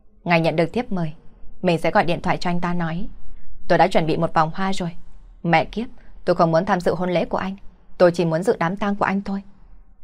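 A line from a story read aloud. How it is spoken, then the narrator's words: Loud. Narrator (Vietnamese): Lâm Mộ Sắc lớn tiếng nói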